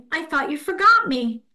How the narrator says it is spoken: cried Eddie

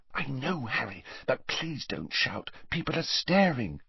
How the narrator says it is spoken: whispered Hermione

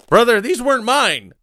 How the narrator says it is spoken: he pleaded, his stomach churning

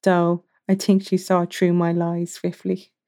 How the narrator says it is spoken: Slate chuckled softly

